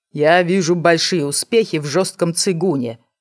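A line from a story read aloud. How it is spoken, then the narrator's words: Gloomy reply. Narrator (Russian): мрачно отвечал брат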